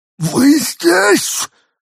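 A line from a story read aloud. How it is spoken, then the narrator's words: Exclaimed. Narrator (Russian): воскликнул пришелец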